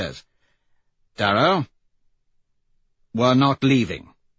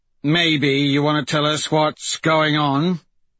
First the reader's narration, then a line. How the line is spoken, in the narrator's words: Screwface asks gruffly